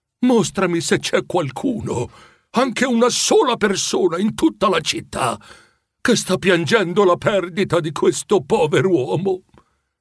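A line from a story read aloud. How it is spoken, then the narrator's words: Pleading. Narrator (Italian): lo implorò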